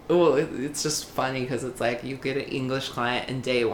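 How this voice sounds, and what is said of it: Usual voice. Nothing is said of it.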